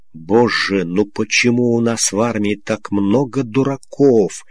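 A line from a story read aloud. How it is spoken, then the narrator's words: Barely audible sigh. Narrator (Russian): еле слышно вздохнул подполковник Сиротин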